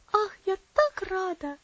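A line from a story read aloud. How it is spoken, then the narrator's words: Delighted little girl exclaiming. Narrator (Russian): воскликнула маленькая девочка, и глаза ее засверкали от удовольствия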